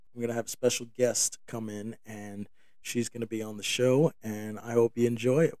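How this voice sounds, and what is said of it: Raspy, hoarse voice. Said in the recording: “my voice is very raspy. Um, I haven't been able to talk.”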